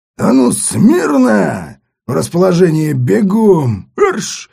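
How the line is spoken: Barked command. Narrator (Russian): как рявкнул

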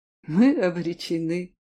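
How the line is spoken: Bitter laugh. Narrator (Russian): горько засмеялась богиня

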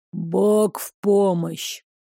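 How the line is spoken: Hoarse voice. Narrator (Russian): хрипло сказала фигура

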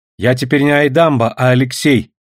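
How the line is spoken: Stern. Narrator (Russian): строго сказал сын

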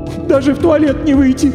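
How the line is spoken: Sorrowful sobbing. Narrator (Russian): горестно всхлипнула дама

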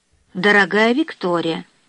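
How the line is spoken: Plain. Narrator (Russian): сказала Жозефина

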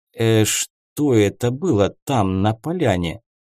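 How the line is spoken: Bewildered mutter. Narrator (Russian): С недоумением пробормотал барон

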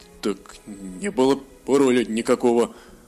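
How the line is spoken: Uncertain. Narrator (Russian): неуверенно сказал Хеншур

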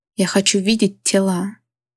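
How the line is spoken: King growling. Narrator (Russian): прорычал король

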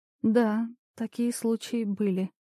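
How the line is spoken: Quiet. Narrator (Russian): тихо проговорила Елизавета

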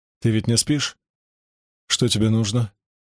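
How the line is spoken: Quiet. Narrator (Russian): тихо сказал

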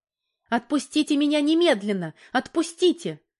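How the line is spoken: Weak, frightened scream. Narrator (Russian): закричала Валька, чувствуя слабость в руках и ногах

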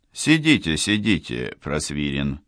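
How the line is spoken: Mocking. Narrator (Russian): насмешливо произнес Аркадий Петрович Горецкий

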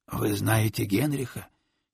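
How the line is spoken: Hoarse clarifying question. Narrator (Russian): хрипло уточнил Тищенко

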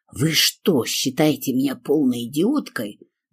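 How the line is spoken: Hissed. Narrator (Russian): зашипела я на советчика

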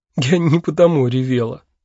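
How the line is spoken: Laughing. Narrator (Russian): сквозь смех сказала она

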